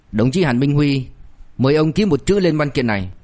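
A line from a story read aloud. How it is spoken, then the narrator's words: Cold clerk's voice. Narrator (Vietnamese): một gã nhân viên, thanh âm lạnh lùng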